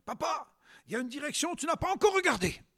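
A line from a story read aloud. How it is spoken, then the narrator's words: Child exclaiming. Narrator (French): son fils s'écrie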